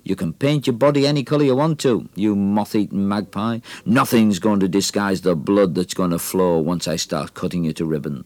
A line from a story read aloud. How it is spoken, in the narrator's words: snarled across the ring